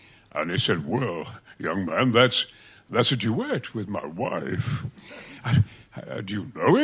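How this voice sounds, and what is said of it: Usual voice. Nothing is said of it.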